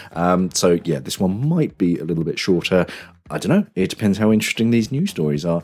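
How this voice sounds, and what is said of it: Voice affected by a cold. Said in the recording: “I've got a bit of a cold, so I'm not really sure how long my voice is going to hold out”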